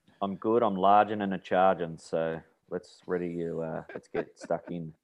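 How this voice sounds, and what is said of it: Flat, tired, unenthusiastic tone. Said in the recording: “You sound so enthusiastic. ... the bloke's just worked for 15-hour day.”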